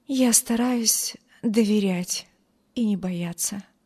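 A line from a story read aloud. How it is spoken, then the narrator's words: Weak voice, poor girl. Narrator (Russian): слабым голосом ответила бедная девушка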